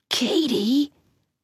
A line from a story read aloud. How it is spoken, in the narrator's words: Paul said quietly